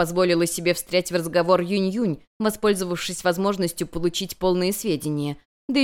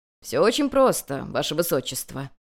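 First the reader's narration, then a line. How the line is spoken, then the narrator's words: Plain. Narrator (Russian): ответил ей Байшен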